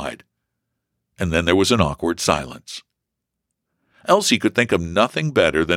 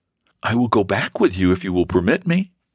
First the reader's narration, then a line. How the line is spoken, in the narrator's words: she said timidly